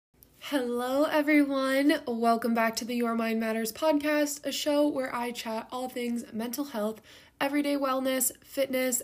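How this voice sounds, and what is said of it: Upbeat, energetic, cheerful voice. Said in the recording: “I am so freaking pumped ... If you can't already tell by my voice, we are having a night and day situation from last week's episode ... today I am showing up already in a good mood”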